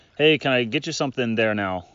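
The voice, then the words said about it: Imitated Minnesota accent. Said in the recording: “I can't do a Minnesota accent, but ... she can. ... she could definitely do it.”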